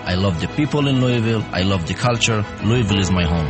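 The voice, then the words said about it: Non-Southern foreign accent. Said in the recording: “My accent may be sound different... He may not sound like a Southerner”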